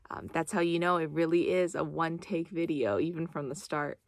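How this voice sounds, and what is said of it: Raspy voice. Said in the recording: “my voice was so raspy.”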